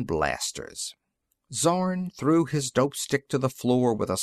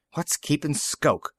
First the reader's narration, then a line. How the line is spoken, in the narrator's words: He muttered